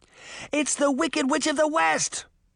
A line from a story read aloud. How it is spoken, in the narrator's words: Sabrina shouted back